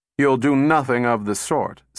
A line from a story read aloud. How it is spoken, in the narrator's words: said Powell sharply